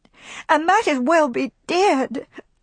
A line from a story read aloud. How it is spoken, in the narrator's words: she sobbed passionately